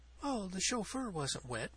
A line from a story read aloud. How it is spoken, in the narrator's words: breathed Cecilia